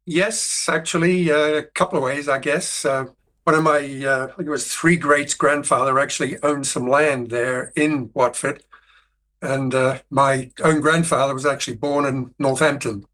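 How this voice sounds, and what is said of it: Curious mixed-up accent. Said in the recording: “your accent is a curious mashup. It's fascinating. ... I would call it a polyglot”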